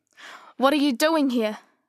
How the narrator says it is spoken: She shouted

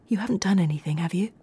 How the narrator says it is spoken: Carla nervously and quietly asked Craig

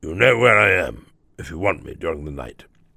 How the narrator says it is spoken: he murmured in a gruff undertone

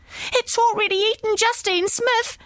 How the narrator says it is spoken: cried the children

